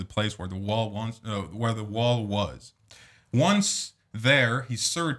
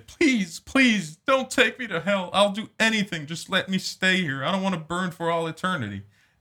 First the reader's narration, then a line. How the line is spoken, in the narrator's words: Jack pleaded